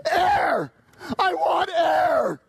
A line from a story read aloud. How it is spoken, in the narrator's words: With an enormous gasp, the young man shrieked